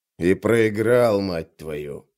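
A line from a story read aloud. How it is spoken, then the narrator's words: Grumble. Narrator (Russian): проворчал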